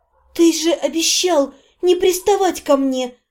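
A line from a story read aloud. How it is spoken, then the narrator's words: Almost soundless breath. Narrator (Russian): Почти беззвучно выдохнула я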